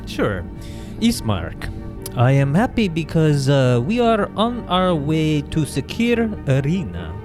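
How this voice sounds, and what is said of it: Put-on character accent, drifting Japanese. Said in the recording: “my accent, it travels into Japanese a little.”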